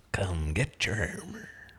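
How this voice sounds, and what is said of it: Video game character voice impression. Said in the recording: “my best Torbjorn impression ... That's pretty good.”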